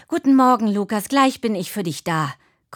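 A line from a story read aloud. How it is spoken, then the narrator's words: Panting. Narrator (German): keuchte Tine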